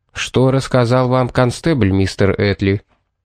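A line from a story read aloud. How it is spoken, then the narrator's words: Strained, barely calm voice. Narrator (Russian): Пит изо всех сил старался, чтобы голос звучал спокойно, но не совсем в этом преуспел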